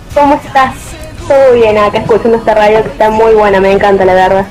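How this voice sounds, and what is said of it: Regional Argentine sing-song accent. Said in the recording (Spanish): “Decime que entendés su lenguaje, su tonada.”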